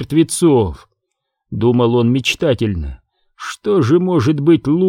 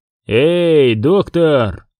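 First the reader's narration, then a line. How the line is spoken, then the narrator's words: Loud call. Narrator (Russian): громко окликнул Зиновьев Аквино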